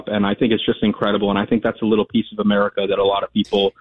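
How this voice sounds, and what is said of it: Philadelphia / South Jersey accent. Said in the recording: “Do you have any links to Philly by any chance? ... I can hear it. I can hear it in your voice. ... I used to live in South Jersey.”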